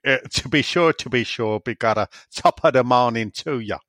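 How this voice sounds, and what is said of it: Put-on Irish accent. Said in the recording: “Can you have a Newcastle accent, a Scottish accent, and an Irish accent, please?”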